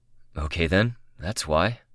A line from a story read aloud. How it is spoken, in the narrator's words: he said, and his voice was breathy